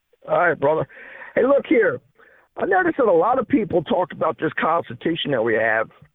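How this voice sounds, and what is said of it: Slightly impaired, messed up voice. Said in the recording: “I had a stroke back a couple years ago. My voice is a little messed up.”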